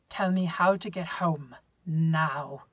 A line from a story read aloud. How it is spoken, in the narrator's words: he growls, swallowing the panic